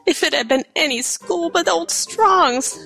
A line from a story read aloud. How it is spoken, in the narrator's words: she sobbed